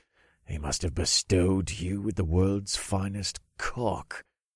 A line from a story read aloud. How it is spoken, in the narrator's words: the guard hissed